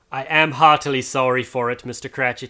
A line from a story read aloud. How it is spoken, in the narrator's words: he said